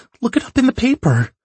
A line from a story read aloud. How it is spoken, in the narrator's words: she cries